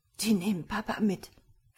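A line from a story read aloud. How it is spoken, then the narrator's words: Despairing whisper. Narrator (German): flüsterte er, vor purer Verzweiflung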